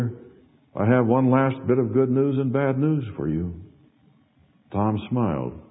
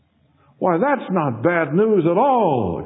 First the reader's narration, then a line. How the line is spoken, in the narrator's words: exclaimed Tom